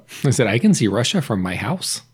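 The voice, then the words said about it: Sarah Palin impression. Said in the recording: “Tina Fey once did an impression of Sarah Palin”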